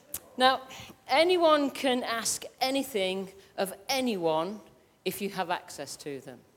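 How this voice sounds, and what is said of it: English Midlands accent. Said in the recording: “I'm from the Midlands and I am not changing my accent”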